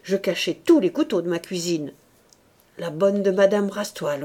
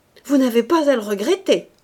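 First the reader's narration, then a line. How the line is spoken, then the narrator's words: Harsh exclamation. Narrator (French): s'écria brutalement Rose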